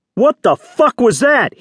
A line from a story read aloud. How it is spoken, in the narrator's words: roared